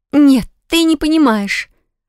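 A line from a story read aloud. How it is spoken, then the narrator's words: Exclamation. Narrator (Russian): воскликнула Лис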